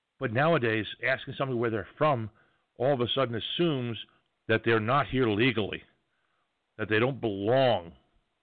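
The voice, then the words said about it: New York accent. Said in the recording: “I speak with an accent. ... when I open my mouth, it says New York loud and clear”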